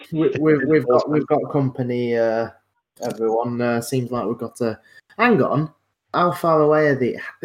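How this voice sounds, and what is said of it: Put-on character accent. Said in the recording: “Sorry, I can't break out of this accent quickly.”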